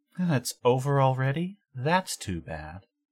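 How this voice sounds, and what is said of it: Sexy character voice. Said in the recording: “a sexy voice from off screen”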